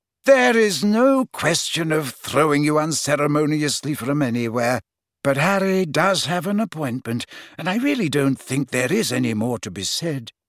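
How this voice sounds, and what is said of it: Slightly exasperated voice. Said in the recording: “said Dumbledore in a slightly exasperated voice”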